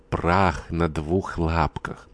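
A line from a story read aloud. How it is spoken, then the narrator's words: Hissing whisper from behind door. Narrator (Russian): Глафира Васильевна оттуда произнесла свистящим шепотом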